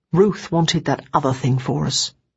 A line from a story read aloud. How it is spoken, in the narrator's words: Tommy said